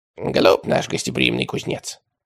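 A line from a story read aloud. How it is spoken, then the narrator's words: Quiet remark. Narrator (Russian): тихонько заметил богодул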